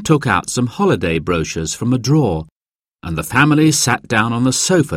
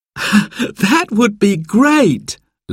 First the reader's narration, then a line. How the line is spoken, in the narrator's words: laughed Simon